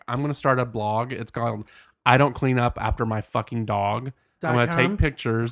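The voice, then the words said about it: Country Southern accent. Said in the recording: “Your accent, wow, gorge. ... It gets a lot more country,”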